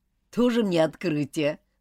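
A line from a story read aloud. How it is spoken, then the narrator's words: Dismissive snort. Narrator (Russian): хмыкнул Роберт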